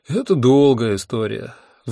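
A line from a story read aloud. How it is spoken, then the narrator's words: Sighing. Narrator (Russian): вздохнул я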